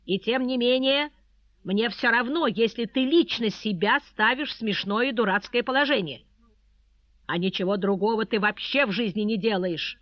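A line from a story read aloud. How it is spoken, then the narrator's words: Sudden pale outburst. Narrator (Russian): Вдруг выкрикнул он, побледнев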